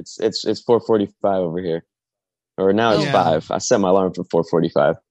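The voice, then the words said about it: Tired, sleepy-sounding voice. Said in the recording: “I'm sorry if I sound tired.”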